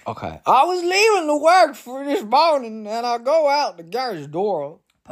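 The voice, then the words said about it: Put-on stereotypical Virginia yokel accent. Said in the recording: “I'm about to do a voice. ... Virginia ... They talk very stereotypically like slack-jawed yokel type ... the Virginia accent”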